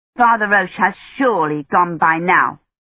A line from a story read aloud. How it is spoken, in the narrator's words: she said angrily